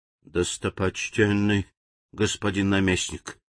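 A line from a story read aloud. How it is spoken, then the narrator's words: Quiet speech. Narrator (Russian): тихо заговорил живун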